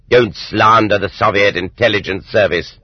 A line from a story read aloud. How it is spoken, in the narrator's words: the presiding judge barked back